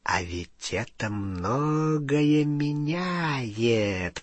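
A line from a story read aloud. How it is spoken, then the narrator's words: Whisper. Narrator (Russian): прошептал Фенрир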